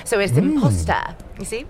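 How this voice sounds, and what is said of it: Posh British accent. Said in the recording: “this is my real accent. I'm very posh, you see.”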